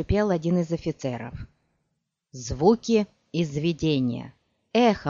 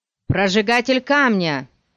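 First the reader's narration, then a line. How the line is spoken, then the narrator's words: Someone shouting. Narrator (Russian): закричал кто-то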